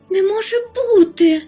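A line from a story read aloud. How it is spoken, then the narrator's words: Shocked cry, worm creature. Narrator (Ukrainian): вражено скрикнула хробся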